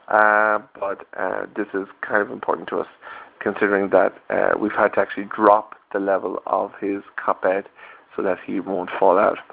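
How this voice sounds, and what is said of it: Tired-sounding voice. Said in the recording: “You probably hear from my voice I'm quite tired. Yes, I am quite tired”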